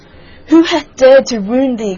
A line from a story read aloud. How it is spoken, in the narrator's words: cried the giant